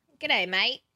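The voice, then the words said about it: Put-on Australian accent. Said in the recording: “say g'day, mate, in an Australian accent”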